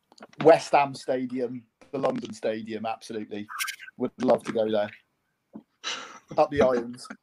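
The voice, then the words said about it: Welsh accent. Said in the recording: “Said in the Welsh accent, mate. Really well, really suits.”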